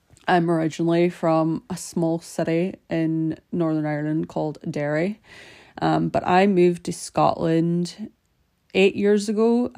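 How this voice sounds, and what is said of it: Irish accent, slight Scottish twang. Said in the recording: “I am Irish, but you might notice that I have a slight Scottish twang sometimes, apparently.”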